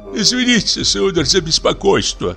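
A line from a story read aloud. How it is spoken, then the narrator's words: Tuner's pleading voice. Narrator (Russian): начал настройщик умоляющим голосом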